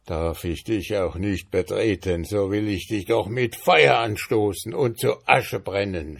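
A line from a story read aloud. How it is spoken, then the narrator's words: Wizard shouting. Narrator (German): schrie der Zauberer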